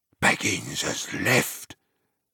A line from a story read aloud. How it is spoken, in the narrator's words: he answered in a whisper